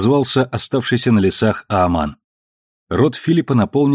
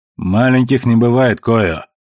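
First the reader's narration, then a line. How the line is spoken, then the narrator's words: Forced calm. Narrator (Russian): Он заставил себя говорить спокойно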